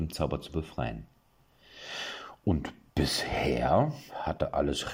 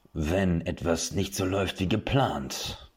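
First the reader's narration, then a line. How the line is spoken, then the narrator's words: Sonorous voice. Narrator (German): hob der Ausbilder mit so sonorer Stimme an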